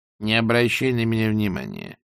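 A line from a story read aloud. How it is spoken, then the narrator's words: Calm reply. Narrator (Russian): спокойно отозвалась матушка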